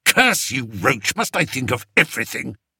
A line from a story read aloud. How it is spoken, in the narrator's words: snarled Spittleworth